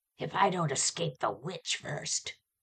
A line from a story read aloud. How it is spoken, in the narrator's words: growl again